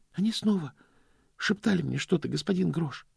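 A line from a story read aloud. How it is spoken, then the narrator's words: Quiet confession. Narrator (Russian): сознался Стэнли тихим голосом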